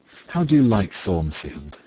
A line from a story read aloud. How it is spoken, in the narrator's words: she asked